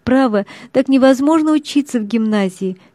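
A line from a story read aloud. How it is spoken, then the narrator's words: Sobbing speech. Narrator (Russian): говорила она, рыдая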